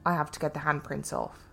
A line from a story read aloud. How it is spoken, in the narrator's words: She replied, rather flatly